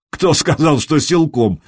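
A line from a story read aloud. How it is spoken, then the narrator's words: Laughing. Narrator (Russian): засмеялся Траин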